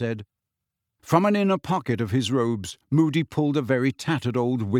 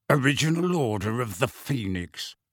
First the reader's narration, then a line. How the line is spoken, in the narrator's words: growled Moody